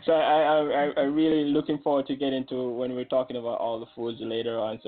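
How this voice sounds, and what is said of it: Jamaican accent. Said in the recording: “I'm also from Jamaica ... by your accent”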